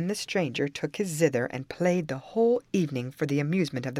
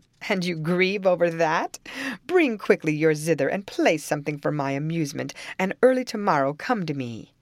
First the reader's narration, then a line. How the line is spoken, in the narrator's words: she laughed at it and called to him